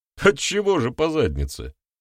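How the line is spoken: Chuckling. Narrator (Russian): хохотнул Визави

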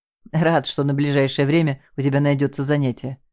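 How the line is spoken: Laughing. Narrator (Russian): засмеялся Саша

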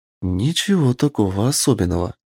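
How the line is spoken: Whisper in ear. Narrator (Russian): прошептала она мне на ухо

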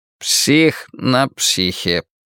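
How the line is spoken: Muttering. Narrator (Russian): бормочет он

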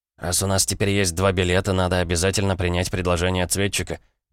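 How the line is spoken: Muttering. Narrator (Russian): пробормотал Северус

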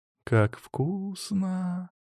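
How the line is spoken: Drawling young woman. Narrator (Russian): протянула девушка

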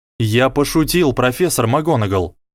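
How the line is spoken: Slightly irritated. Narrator (Russian): немного раздраженно сказал Гарри

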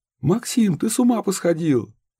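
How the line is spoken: Mother shouting from doorway. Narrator (Russian): закричала с порога его мать

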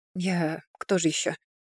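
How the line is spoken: Muttered under breath. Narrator (Russian): пробормотала под нос Кайлин

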